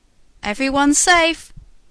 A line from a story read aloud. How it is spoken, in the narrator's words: cried a fireman